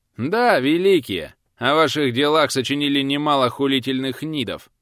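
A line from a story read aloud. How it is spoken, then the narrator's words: Mocking, from close by. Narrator (Russian): Насмешливо донеслось почти рядом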